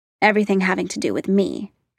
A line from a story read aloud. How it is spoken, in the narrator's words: Clint said